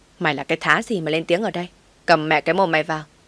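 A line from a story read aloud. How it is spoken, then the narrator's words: Harsh shout. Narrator (Vietnamese): Nó quát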